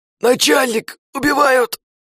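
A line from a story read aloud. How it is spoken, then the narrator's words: Yelling. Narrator (Russian): Заорал он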